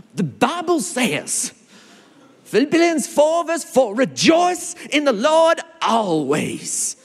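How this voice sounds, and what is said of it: Put-on American accent. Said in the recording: “I'm not sure why I went into an American accent”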